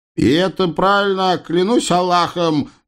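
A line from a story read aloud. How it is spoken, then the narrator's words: Loud proclamation. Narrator (Russian): громко возвестил Ахмед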